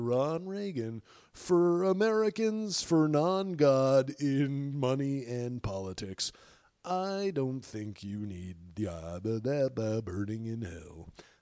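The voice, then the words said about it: Impression of Ron Reagan commercial. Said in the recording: “I think that was a decent impression.”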